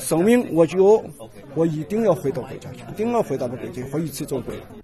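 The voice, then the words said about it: Strong Shaanxi Guanzhong accent, halting Mandarin. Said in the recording (Chinese): “老人的汉语表达已不太顺畅，但还是带有浓浓的陕西关中口音”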